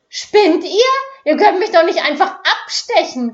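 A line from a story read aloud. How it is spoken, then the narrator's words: Shriek. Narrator (German): kreischte sie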